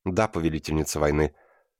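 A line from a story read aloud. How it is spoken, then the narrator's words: Cup speaking. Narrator (Russian): сказала чаша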